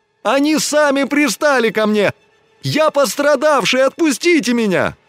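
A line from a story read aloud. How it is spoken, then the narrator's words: Increasingly loud wailing. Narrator (Russian): тем громче он вопил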